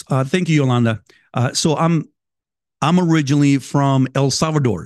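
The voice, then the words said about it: Salvadoran Spanish accent. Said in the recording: “I can hear an accent coming from you ... you can tell my accent, I'm sure you caught my accent”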